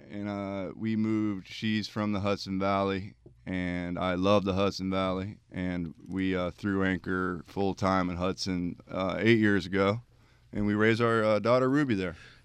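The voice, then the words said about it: South Jersey accent. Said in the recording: “I detect from your accent you may be from Jersey, somewhere down there.... Way South Jersey.”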